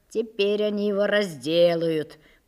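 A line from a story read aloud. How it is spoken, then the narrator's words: Meaningful drawl. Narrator (Russian): протянул он многозначительно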